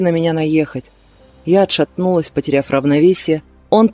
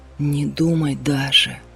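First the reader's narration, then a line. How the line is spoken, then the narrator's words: Whisper. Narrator (Russian): шепнул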